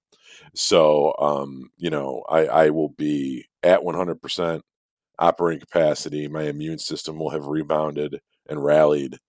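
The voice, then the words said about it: Nasal, congested sick-sounding voice. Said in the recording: “I'm getting over a cold, which is kind of noticeable. ... I sound a little sick. ... you can tell I just sound nasally.”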